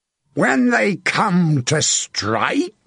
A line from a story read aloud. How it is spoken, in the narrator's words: Sir John bellowed